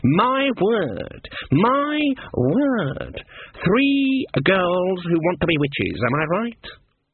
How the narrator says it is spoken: Her voice went falsetto

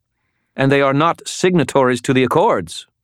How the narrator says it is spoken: Lady Malvora snapped

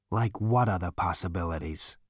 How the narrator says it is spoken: said wearily

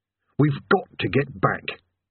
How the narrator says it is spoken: he said urgently

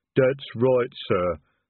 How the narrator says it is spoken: the troll rumbled

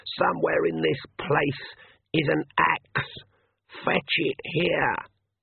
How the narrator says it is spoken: she said in a hoarse whisper

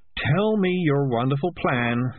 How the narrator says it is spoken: sighed Morris

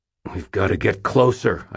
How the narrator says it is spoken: I growled

